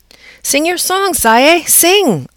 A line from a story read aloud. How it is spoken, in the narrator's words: I squeaked out as loudly as I could